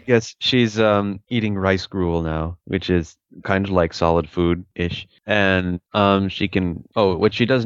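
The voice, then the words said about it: Deep, sexy male voice. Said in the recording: “good to hear your deep, sexy voice”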